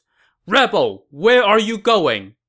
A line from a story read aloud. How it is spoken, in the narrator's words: a general shouted from his horse